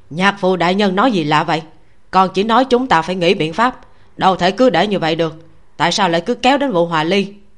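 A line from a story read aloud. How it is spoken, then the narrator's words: Startled, irritable snap. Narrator (Vietnamese): Khấu Lẫm sửng sốt, nhíu mày gắt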